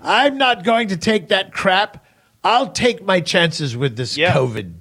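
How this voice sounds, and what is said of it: Imitates another person's voice. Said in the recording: “With the same accent, by the way.”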